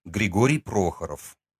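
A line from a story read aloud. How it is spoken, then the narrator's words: Calm reply. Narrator (Russian): спокойно ответил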